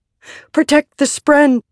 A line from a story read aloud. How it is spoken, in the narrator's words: Shallan shouted